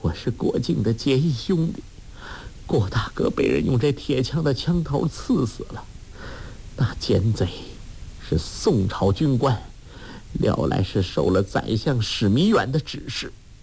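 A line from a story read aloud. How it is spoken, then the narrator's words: Sobbing, broken speech. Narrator (Chinese): 杨康边哭边说，涕泪滂沱，断断续续的道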